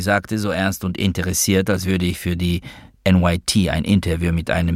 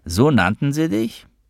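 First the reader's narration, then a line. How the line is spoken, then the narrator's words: Laughing while speaking. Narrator (German): sagte Noah lachend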